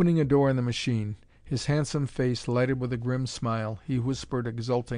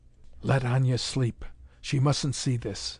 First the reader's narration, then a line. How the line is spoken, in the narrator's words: Unani Assu whispered